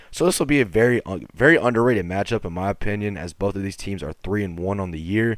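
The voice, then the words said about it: Very hoarse voice. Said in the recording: “My voice is still so hoarse ... It's just horrifyingly bad.”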